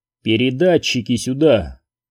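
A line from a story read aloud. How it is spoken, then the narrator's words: Peaceable demanding tone. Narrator (Russian): миролюбивым тоном потребовал Куай-Гон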